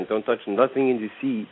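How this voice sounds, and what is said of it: Put-on French accent. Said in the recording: “He said it with a French accent”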